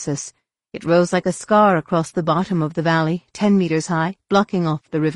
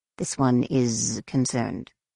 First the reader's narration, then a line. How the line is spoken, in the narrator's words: Saba muttered to Jason